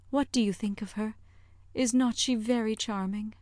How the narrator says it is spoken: with a gentle sigh

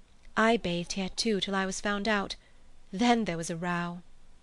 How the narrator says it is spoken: But she answered dreamily

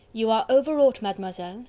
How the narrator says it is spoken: she said coldly

